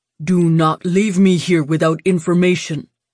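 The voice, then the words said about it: Heavy foreign accent. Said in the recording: “With his heavy accent, it came out more as Benje.”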